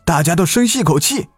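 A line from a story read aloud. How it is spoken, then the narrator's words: Shout. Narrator (Chinese): 喊了一声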